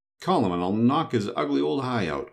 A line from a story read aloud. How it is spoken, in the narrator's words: cried the boy